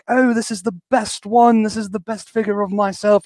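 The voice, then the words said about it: Terrible put-on British accent. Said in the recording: “my terrible British accent”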